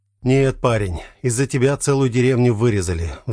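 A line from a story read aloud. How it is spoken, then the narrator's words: Sighing. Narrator (Russian): вздохнул Сергей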